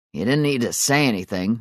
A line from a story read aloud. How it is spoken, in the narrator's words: Mark grumbled